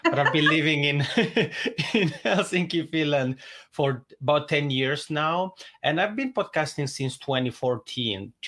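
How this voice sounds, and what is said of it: Swiss Italian accent in English. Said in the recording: “I'm originally from the Italian speaking part of Switzerland. That's why I have this funny macaroni accent”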